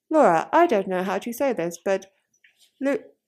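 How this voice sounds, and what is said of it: Little robot voice. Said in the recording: “in a little robot voice”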